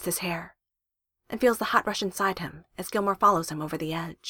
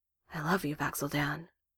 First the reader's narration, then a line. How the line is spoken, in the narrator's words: says softly